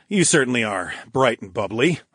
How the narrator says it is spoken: I chuckled

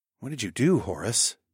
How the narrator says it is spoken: I asked in a hushed tone

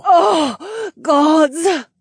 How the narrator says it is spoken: Valera groaned

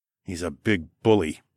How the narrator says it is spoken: I muttered

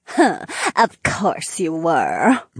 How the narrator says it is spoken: Marina giggled

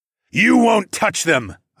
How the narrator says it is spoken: I thundered

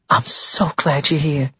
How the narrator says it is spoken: she whispered

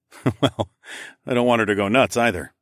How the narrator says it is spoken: I chuckled

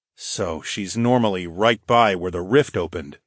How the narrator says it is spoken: I murmured

